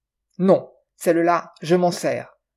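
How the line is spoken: Curt, sharp. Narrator (French): trancha-t-il sèchement

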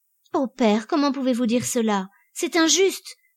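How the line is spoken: Exclaimed passionately. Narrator (French): s'écria-t-elle avec feu

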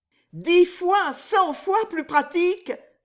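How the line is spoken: Exclaiming. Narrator (French): s'écria Riquet

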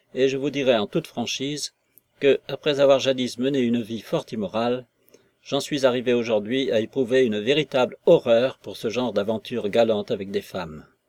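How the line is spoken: Curt declaration. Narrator (French): déclara Nekhludov d'un ton cassant

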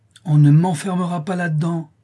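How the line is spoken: Determined child exclaiming. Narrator (French): s'écria l'enfant déterminé, dont les yeux brillaient comme ceux d'un jeune chat sauvage

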